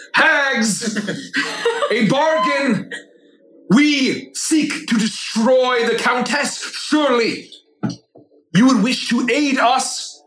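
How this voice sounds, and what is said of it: Booming, yelling character voice. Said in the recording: “my voice is going to boom ... I'm going to yell”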